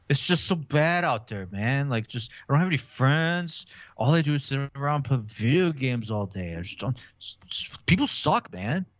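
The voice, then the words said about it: Mopey emo teenager voice. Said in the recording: “Give me your best edgelord voice ... I could go emo ... give me emo”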